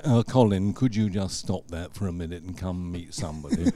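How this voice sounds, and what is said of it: Imitates another person's voice. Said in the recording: “That's a good imitation.”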